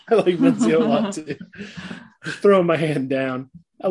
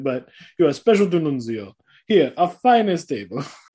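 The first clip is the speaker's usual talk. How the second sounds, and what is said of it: Put-on accent imitating Nuncio. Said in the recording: “Good accent... Nailed it.”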